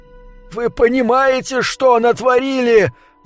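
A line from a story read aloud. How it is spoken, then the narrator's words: Angry yell. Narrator (Russian): заорал кондуктор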